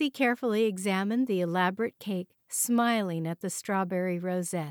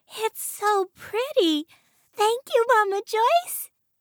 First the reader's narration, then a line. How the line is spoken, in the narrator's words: she cried